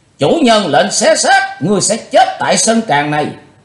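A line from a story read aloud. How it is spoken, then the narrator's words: Group shouting in unison. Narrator (Vietnamese): Cả bọn đông đảo đồng thời quát to lớn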